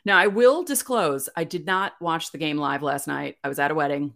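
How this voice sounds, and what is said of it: Raspy, hoarse voice. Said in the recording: “my voice is raspy.”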